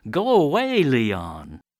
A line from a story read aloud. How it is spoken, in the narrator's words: crowds are shouting